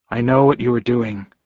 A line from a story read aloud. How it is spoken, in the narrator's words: I said in a low voice, though all the wolves could hear me